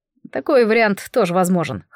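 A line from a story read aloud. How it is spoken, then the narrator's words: Wry snort. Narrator (Russian): хмыкнул он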